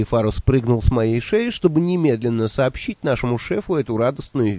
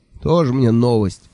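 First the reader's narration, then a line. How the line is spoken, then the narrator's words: Tired sigh. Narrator (Russian): устало вздохнул Джуфин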